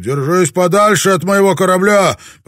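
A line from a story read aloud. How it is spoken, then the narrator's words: Shouting. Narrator (Russian): Родригес крикнул ему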